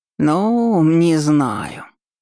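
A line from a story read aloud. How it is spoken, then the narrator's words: Drawling, hesitant. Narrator (Russian): протянул домовой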